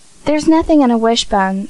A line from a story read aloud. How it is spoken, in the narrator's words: said Dan impatiently